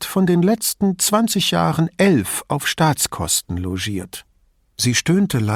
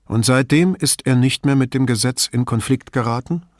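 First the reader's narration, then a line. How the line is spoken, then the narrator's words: Calm question. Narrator (German): fragte ruhig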